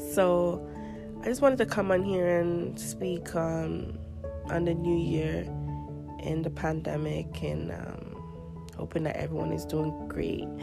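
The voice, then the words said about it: Crusty, rusty voice from a cold. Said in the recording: “I'm so sorry for my crusty voice. ... I have a cold right now, so I'm very rusty with my voice and my cough here and there”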